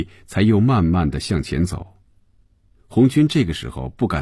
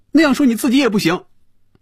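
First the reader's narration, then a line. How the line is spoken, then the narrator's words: Loud. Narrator (Chinese): 菲比大声说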